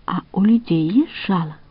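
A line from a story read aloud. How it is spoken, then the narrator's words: Plain. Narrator (Russian): спросила пчела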